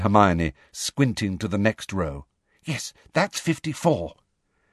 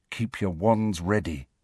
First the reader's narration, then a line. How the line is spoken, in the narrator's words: Harry said softly